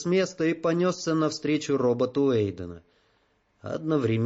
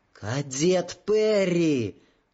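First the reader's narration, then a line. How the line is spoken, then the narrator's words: Yelled. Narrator (Russian): заорала Джоанна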